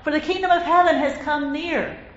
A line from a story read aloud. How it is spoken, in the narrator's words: cried out